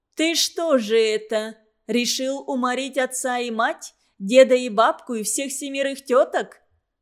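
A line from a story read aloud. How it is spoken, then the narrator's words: Booming bass shout, echoing. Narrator (Russian): Могучим басом закричала всадница, и звонкое эхо басовито отозвалось из-за барханов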